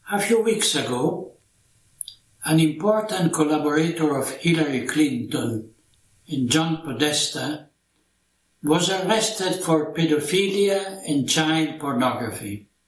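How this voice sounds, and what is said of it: Thick foreign accent in English. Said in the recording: “He does have a thick accent, but his English is just fine.”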